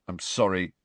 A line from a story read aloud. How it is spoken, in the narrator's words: Ron mumbled